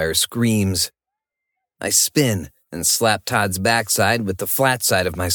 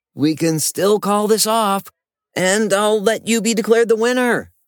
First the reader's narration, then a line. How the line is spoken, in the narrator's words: I shout